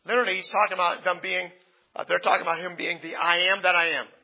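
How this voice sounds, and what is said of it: Strained, hoarse voice. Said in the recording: “I'm losing my voice here.”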